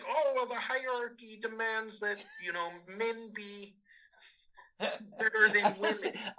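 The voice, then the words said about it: Imitates another person's voice. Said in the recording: “I love your Peterson impersonation is really good.”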